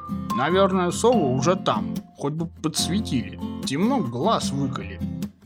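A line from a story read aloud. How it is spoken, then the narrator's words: Grumbling hedgehog. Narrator (Russian): пробурчал ёжик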